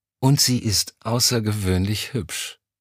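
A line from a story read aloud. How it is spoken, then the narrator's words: Sighing. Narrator (German): Elm seufzte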